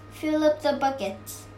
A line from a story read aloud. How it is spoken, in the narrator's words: said Mickey